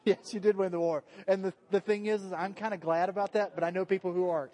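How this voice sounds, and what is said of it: Speaks with a regional accent. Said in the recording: “my accent gets in the way sometimes”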